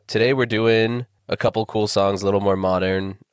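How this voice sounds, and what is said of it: Weird, sick-sounding voice. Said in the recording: “my voice sounds weird, it's because I'm fighting off a killer cold ... This is what my voice sounds like right now”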